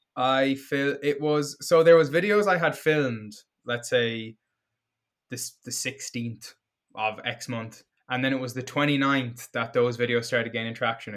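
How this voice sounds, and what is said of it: Irish accent. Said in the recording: “that's an R at the start of RDL, but he's Irish.”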